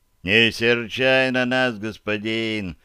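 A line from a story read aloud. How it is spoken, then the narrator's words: Deep bass voice. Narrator (Russian): пробасил самый бровястый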